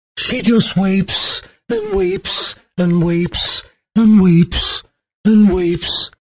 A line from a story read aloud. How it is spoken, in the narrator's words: moaned Anne the nurse